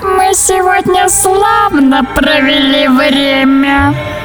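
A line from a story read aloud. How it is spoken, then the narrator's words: Laughing creature. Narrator (Russian): Захохотало существо и добавило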